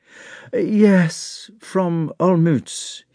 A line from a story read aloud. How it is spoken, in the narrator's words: he answered with a sigh